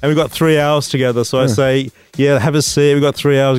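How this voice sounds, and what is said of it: British accent. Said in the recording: “You've got that British accent, mysterious thing going on. I'm like Sherlock Holmesy.”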